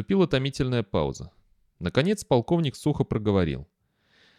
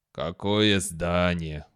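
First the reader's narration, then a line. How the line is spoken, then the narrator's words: Tired question. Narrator (Russian): устало спросил полковник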